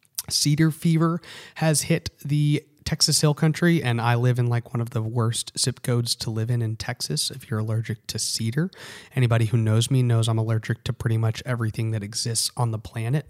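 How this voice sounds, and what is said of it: Hoarse, soft, strained voice. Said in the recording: “If I sound like I'm losing my voice, it's because I am. I'm trying to speak a little softer.”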